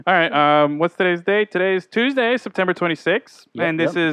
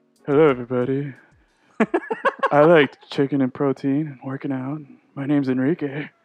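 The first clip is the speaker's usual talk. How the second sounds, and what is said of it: Imitates another person's voice. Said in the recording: “I'll do my best Enrique right here ... This is how Enrique talks”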